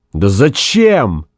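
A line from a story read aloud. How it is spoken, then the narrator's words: Desperate shout. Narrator (Russian): с отчаянием закричал Гай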